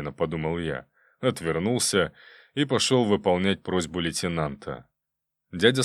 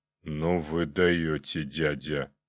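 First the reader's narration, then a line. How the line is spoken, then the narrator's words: Hoarse. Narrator (Russian): послышался от камина хриплый голос Жоры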